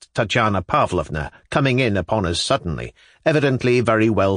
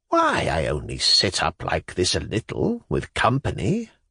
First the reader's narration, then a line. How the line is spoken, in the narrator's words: Makar Ivanovitch murmured with a face of entreaty like a child